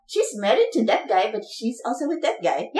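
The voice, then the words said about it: Poor attempt at Indian accent. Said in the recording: “That was terrible, but all right. Filipinos can't do an Indian accent.”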